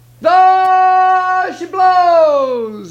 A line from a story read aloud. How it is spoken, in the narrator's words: hollered